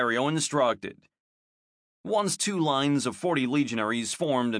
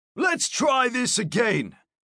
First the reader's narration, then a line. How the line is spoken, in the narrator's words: shouted while walking beside the formation